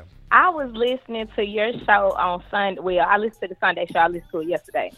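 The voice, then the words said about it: Southern country accent. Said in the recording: “I remember this country ass accent ... I remember that accent.”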